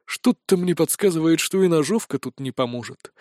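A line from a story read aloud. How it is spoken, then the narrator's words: Sighing. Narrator (Russian): вздохнул Виктор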